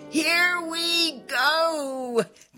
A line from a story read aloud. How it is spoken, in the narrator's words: they shouted